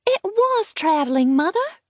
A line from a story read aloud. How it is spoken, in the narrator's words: said the child eagerly and willfully